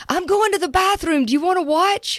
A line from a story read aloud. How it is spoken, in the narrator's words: I yelled